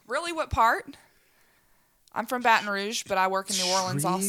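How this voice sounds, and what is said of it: Slight Louisiana Southern accent. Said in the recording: “a touch of an accent there ... I'm from Louisiana”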